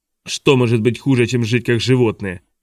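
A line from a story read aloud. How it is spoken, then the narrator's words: Old man's bark. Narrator (Russian): рявкнул старик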